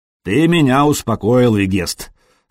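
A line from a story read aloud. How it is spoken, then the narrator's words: Plain. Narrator (Russian): сказал вождь Нурманов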